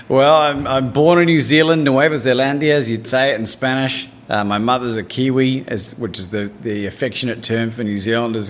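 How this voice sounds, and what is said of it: Australian-sounding New Zealand accent. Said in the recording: “You have an accent that I said sounds like you're from Australia”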